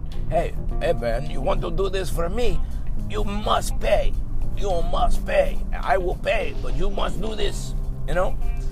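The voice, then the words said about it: Put-on foreign accent. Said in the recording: “That was a good accent, wherever it was”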